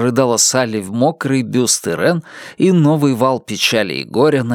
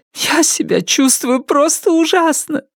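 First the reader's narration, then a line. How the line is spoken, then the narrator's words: Sobbing. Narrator (Russian): рыдала Салли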